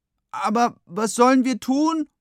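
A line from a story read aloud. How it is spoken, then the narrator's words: Despondent call. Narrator (German): ruft Finn verzagt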